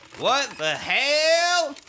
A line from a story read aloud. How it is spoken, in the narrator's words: he shouted